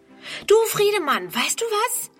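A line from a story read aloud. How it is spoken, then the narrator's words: Called out. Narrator (German): ruft sie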